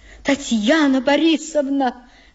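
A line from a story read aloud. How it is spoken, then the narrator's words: Pleading voice. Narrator (Russian): заговорила умоляющим голосом гостья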